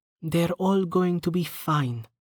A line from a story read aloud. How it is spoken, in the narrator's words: she said softly